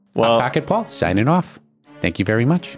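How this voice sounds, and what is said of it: New put-on accent. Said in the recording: “Got a new accent today. Trying it out seems to be working all right.”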